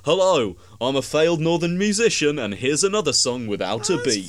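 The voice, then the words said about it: Mimics a radio presenter's voice. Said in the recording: “my friend ... impression of it”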